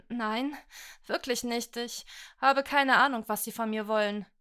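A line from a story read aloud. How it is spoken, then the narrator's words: Trembling voice. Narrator (German): brachte mit zittriger Stimme hervor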